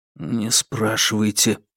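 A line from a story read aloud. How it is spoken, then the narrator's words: Whispered. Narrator (Russian): шепнул ей Фанму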